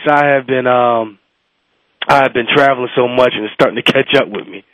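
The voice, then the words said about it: Sick-sounding voice. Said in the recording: “Sorry about my voice. ... Sorry you're not feeling well. ... I'm sick”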